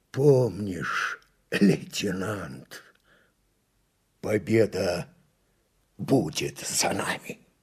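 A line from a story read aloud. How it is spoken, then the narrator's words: Hoarse breathless wheeze. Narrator (Russian): с хрипом, задыхаясь, произнес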